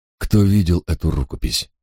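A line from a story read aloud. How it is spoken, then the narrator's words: Quiet question. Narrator (Russian): тихо спросил я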